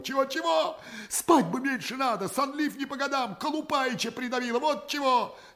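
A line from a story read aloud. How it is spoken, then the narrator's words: Tearful, sobbing. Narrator (Russian): Со слезой и всхлипываниями отвечает Шахматов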